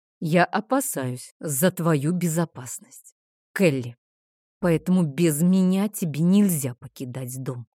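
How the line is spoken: Dragon, through gritted teeth. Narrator (Russian): сквозь зубы процедил дракон

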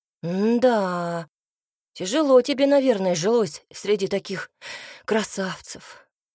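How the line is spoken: Sighing. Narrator (Russian): вздохнул Цинта

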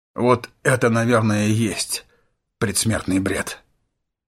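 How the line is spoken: Muttering. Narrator (Russian): пробормотал он

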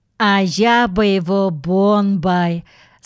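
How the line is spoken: Sweet lisping girl's voice. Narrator (Russian): сказала Аленка Гусенок своим сладким, слегка шепелявым голоском

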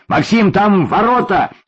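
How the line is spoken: Shouted right into ear. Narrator (Russian): крикнул Юрьев в самое ухо подростку

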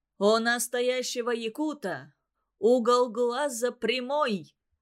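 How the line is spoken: Mischievous yell. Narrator (Russian): заорал кто-то озорным голосом

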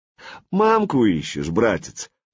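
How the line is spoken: Mocking question. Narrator (Russian): насмешливо поинтересовался Владимир

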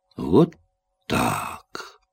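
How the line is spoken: Disappointed drawl. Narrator (Russian): разочарованно протянул Степлтон

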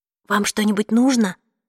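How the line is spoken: Whisper. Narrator (Russian): прошептала я

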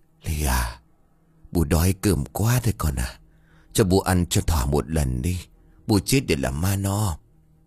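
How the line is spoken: Old woman whispering. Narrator (Vietnamese): bà cụ Miền đột nhiên hồi tỉnh, bà cụ thì thào

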